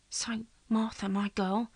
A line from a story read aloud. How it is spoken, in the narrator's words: he whispered